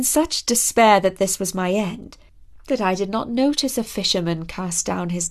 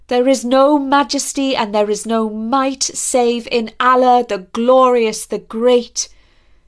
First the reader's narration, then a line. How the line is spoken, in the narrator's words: cried